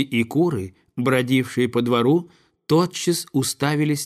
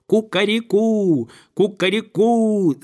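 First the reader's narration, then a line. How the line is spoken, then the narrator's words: Rooster crowing loudly. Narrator (Russian): закричал петух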